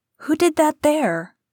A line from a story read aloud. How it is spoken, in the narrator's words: cried